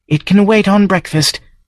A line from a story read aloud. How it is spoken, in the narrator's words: Maddie said shakily